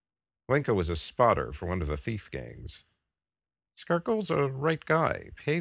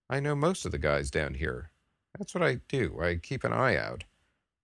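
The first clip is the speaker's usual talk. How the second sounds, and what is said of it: Low, quiet voice. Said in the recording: “Glinko said in a low voice.”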